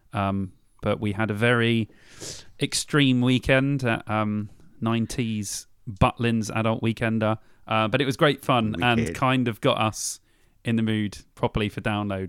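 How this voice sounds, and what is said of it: Rough, worn-out voice. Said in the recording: “my voice is still a bit mashed.”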